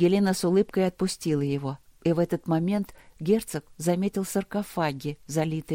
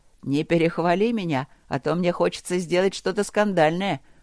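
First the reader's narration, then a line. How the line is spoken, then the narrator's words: Snorting. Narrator (Russian): хмыкнул Люк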